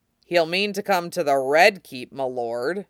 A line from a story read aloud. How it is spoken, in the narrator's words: grimly